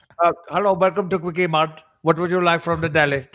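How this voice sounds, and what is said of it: Put-on Indian accent. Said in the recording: “It sounds like an Indian guy that works at a deli ... Doing an Indian, there's nothing racist about doing an Indian accent”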